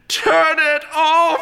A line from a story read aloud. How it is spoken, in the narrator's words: screamed the art collector